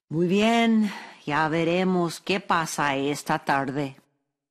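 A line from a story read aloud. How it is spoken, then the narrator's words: Sighing, grieved. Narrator (Spanish): Don Ignacio quedó acongojado por la pérdida de todas las manzanas, pero suspiró y dijo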